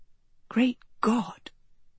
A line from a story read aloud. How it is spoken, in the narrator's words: she whispered